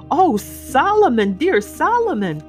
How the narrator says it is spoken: cried Miss Prost

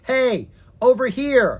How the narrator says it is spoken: Ella yelled to the stinky fish monster

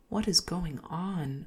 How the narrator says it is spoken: murmured under my breath

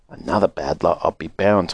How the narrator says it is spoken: muttered Grandma Josephine

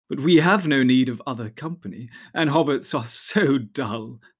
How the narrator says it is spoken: they laughed

